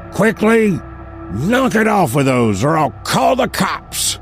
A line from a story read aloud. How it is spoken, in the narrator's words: shouted the angry man